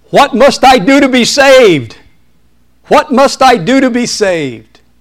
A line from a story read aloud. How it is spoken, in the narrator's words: people were shouting